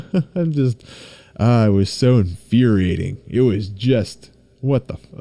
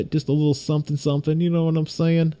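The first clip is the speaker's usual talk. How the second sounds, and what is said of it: Put-on accent. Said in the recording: “Don't know what I'm doing with that accent,”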